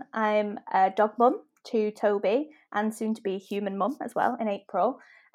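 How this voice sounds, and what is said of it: Manchester accent. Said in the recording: “I'm from Manchester, as I'm sure you can tell from my accent.”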